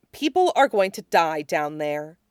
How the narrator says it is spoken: Teruko said grimly

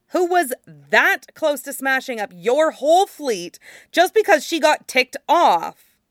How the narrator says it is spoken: Lung Shui snapped

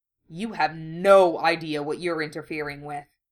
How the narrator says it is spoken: he said furiously

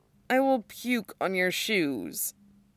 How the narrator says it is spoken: he mumbles

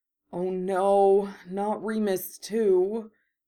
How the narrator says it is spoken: he said miserably

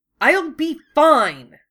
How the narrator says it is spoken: Wufei snapped

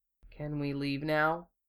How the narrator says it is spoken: Hiro asked tightly

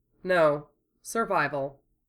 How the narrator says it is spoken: Troa said calmly

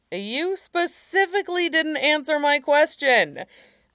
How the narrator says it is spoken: Naomasa exclaimed, grin tugging at his mouth

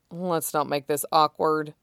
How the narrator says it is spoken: Shota muttered

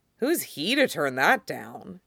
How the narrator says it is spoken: He sighs

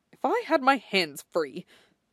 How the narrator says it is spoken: Dorian mutters

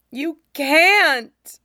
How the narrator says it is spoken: the boy shouts

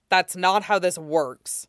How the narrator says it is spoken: Wolfgang snaps

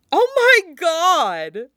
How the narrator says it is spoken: Nami wheezes, shrieking a sound of laughter

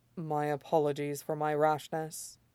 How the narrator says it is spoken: he murmurs

